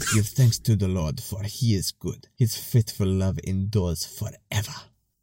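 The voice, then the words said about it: Put-on African accent, Wakanda-like. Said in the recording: “I read the verse in an African accent ... That's like a combination of like Wakanda and Russia.”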